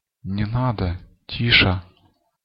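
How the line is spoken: Quiet. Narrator (Russian): тихо сказала Катерина Петровна

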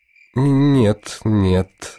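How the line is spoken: Frustrated through gritted teeth. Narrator (Russian): отвечает Муса Бай сквозь зубы, а сам чуть не стонет от досады

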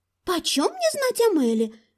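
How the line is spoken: Irritated small voice. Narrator (Russian): ответил раздраженно голосок

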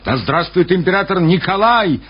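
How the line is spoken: Excited exclamation. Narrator (Russian): воскликнул полковник Стюрлер, вбегая в зал

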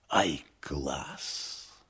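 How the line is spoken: Admiring whisper. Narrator (Russian): гример восхищенно шепнул

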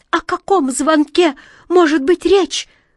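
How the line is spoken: Bird's exclamation. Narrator (Russian): воскликнула ласточка

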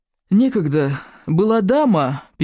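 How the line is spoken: Sad heavy sigh. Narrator (Russian): печально вздохнул неимоверно

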